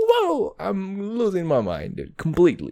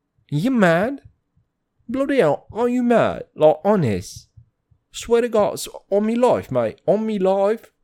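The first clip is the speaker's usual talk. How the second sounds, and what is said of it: Put-on British accent. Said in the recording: “Latina doing British accent.”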